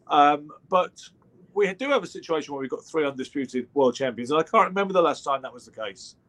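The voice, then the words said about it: British accent. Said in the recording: “beautiful British accent”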